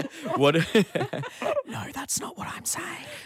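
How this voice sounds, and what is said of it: Whispering. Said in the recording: “I want you to whisper that thing that you say in the hack intro”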